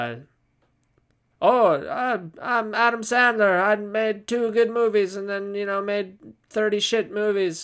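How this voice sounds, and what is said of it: Poor Adam Sandler impression. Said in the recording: “Here's my impression of Adam Sandler ... That was terrible. See, that was terrible.”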